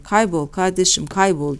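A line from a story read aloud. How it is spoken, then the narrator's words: Group shouting. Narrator (Turkish): diye bağırıyorlardı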